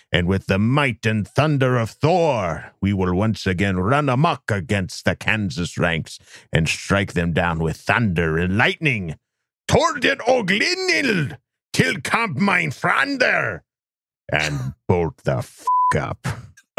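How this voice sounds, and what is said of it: Put-on Viking accent. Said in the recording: “I don't know that I had a good Viking accent in that”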